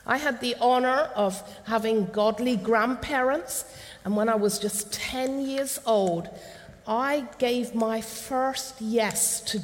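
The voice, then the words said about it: Cornish English accent. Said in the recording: “this is where you understand a little bit of this accent. My childhood was in Cornwall.”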